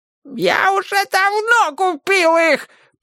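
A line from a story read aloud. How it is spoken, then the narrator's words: Yelling. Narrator (Russian): продолжал вопить Семель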